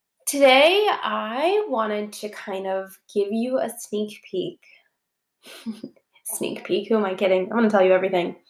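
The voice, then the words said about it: Stuffy, congested, slightly off voice. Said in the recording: “I have a bit of a cold, so I am a little stuffy, a little drowsy, super lazy, ... but my voice is a little off”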